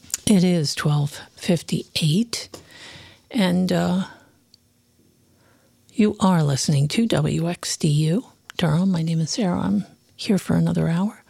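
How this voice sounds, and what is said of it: Hoarse voice. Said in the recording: “I'm so hoarse this morning”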